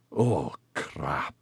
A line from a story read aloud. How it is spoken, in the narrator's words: Maxon growled under his breath